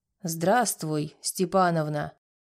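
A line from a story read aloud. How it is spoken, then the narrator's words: Hoarse low voice. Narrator (Russian): сказал он хриплым низким голосом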